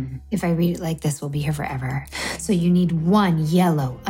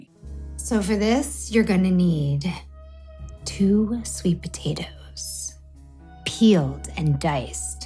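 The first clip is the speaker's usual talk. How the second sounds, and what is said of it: Sultry, seductive reading voice. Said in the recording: “in her sexy voice ... In my sexiest voice”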